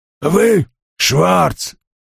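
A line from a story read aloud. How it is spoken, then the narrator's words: Hoarse, assertive. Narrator (Russian): утвердительно произнес Фабиан знакомым сиплым голосом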